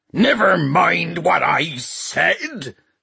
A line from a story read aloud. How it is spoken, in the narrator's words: screamed Peavey